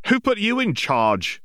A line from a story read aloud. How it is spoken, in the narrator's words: exclaimed one of the witches